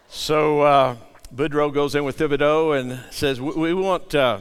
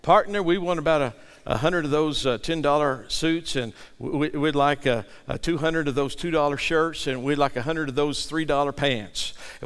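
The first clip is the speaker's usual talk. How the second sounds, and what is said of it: Put-on Texas drawl. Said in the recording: “he's trying to have that Texas drawl”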